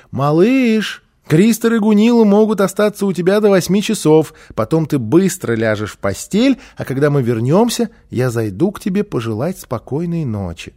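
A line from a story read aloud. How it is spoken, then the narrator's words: Mother calling from afar. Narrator (Russian): мама крикнула из прихожей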